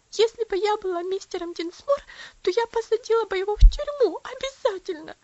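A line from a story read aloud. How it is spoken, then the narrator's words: Sobbing. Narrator (Russian): всхлипывала она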